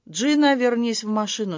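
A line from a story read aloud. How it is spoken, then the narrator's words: Calm. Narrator (Russian): спокойно сказал Гарольд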